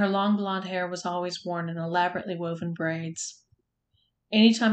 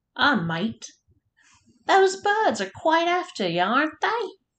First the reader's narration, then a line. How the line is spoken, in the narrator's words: called out a cheerful man's voice